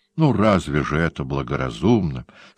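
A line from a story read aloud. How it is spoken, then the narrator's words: Moaning. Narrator (Russian): стонал теперь Анабитард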